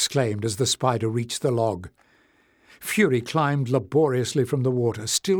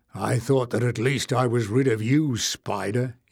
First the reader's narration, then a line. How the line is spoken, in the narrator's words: growled